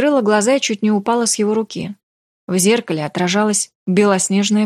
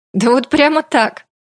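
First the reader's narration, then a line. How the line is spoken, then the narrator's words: Laughing. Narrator (Russian): рассмеялся он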